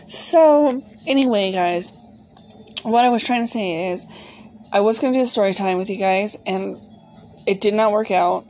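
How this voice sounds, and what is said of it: Slightly hoarse, cracky voice. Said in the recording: “I have a little bit of a cold, so my voice is a little bit of cracky ... clearing my throat”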